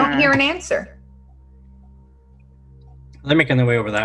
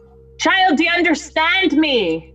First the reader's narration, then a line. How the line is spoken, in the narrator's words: yell out